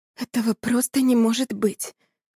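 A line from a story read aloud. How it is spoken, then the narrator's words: Whisper. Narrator (Russian): прошептала Анна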